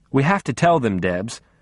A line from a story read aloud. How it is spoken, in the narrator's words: I said